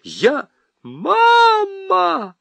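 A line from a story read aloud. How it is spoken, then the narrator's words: Wild strange scream. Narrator (Russian): Не своим голосом завопила Нюра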